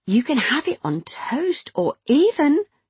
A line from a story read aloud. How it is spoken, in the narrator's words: she smiled playfully